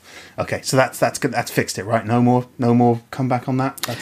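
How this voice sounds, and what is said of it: Usual voice. Nothing is said of it.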